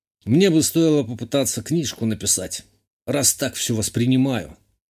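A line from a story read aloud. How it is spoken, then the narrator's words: Wry snort, young man. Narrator (Russian): хмыкнул парень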